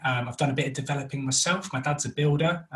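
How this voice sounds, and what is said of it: North London accent. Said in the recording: “we're originally from North London, which is why I have this wonderful accent”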